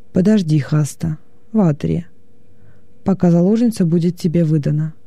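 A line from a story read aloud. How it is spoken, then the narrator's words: Calm. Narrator (Russian): уже спокойно сказал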